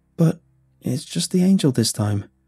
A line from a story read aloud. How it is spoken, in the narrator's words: Hunter said, his voice shaking